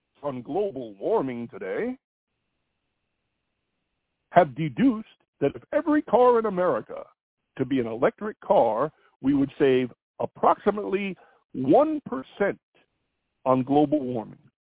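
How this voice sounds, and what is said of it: Mock newscaster voice. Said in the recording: “my best newscaster voice”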